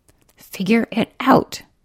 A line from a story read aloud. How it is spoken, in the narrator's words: hissed at herself